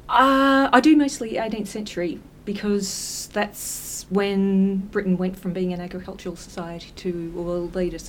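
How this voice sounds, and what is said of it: Slight Australian accent. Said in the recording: “you've got a bit of an Australian accent.”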